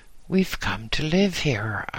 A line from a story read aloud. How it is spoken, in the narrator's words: replied